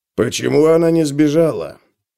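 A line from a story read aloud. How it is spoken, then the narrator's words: Mutter. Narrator (Russian): пробормотал он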